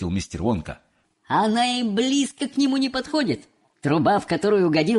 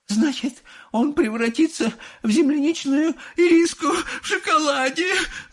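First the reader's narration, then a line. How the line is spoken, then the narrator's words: Inconsolable sobbing woman. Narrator (Russian): зарыдала безутешная миссис Глуп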